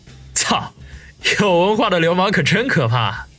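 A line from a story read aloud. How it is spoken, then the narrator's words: Hasty, placating laugh. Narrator (Chinese): 孙威见王宇一脸阴晴不定，连忙陪笑说道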